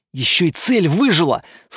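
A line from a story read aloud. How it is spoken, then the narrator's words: Shout. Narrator (Russian): снова закричал Лирин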